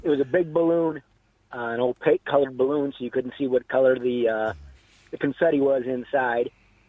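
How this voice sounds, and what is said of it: American accent. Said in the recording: “where was this in the United States? Because I detect an accent. ... I'm from the States”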